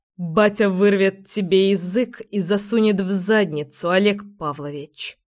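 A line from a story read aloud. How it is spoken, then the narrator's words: Threatening, through gritted teeth. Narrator (Russian): Процедила я свои угрозы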